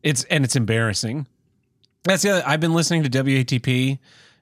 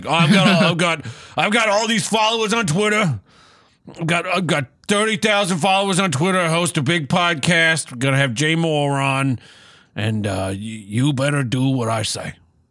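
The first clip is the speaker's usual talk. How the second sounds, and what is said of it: Imitates another person's voice. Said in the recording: “my Stuttering John impression.”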